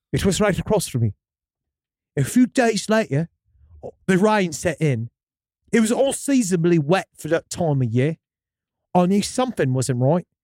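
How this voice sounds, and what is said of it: Reading in a put-on accent. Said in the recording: “Can you stick with this accent”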